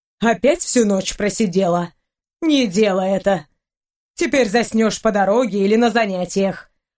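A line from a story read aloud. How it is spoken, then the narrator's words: Grumbling. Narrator (Russian): проворчала хозяйка дома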